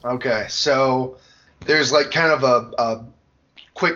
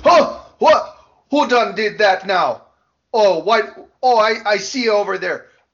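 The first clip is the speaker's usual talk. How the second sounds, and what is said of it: Character voice, odd Jamaican-like accent. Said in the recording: “a Jamaican Michigander... I don't know what this accent is”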